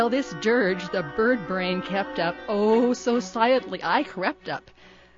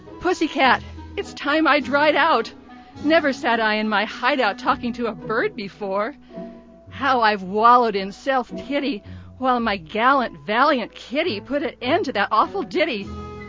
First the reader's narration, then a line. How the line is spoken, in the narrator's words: my pickled poet cried out